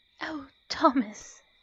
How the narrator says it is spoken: she breathed shakily

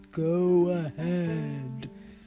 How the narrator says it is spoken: growled Budhuraj

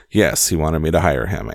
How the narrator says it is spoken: answered Epps

